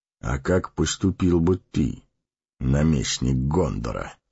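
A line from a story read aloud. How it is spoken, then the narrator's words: Calm question. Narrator (Russian): спокойно спросил Гэндальф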